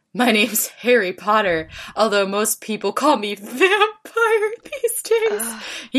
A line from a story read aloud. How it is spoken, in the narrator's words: grumbled